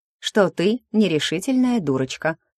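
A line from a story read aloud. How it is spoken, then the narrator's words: Laughing. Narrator (Russian): хохотнула Машка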